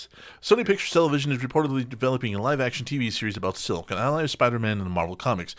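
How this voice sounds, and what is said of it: Reading very fast. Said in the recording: “read this fast”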